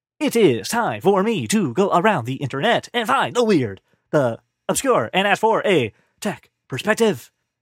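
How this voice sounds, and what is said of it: Imitates a famous actor's voice. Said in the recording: “I'm doing that voice because William Shatner has a Christmas album”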